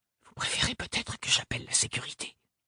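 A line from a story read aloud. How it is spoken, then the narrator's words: Whispered question. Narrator (French): La mémorialiste avait chuchoté sa question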